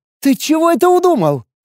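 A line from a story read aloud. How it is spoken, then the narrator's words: Frightened squeal. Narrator (Russian): Испуганно взвизгнув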